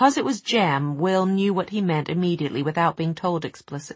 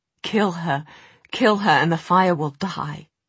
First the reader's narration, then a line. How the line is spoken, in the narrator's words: Already the room was dim with smoke, Jem, raising his sleeve to cover his mouth, said to Will in a choking voice